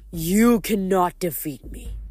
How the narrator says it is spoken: he growled

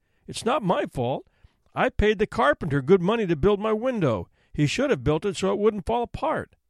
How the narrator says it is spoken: he pleaded

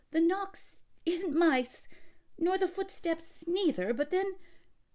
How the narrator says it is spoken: stammered

